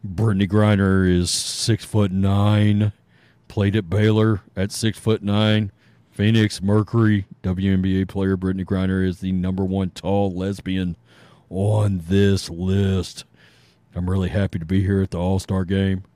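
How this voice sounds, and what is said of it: Deep imitated voice. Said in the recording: “in my best Brittany Griner voice ... voice ... Deeper than”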